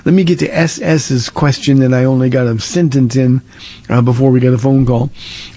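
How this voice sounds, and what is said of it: Hoarse, failing voice. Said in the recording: “As you can tell, my voice is going down by the moment”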